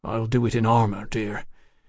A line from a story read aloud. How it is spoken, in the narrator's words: he muttered